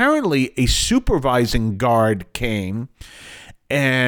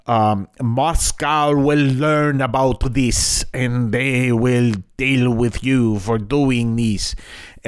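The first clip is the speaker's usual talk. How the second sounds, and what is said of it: Bad put-on Russian accent. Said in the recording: “really bad Russian accent”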